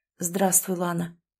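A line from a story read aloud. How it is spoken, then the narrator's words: Quiet. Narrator (Russian): тихо произнес Артем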